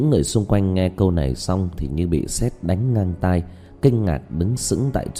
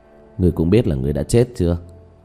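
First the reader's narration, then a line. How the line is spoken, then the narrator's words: Sighing. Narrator (Vietnamese): Diệp Thiếu Dương thở dài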